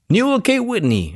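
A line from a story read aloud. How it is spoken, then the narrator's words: Exclamation. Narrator (Spanish): exclamó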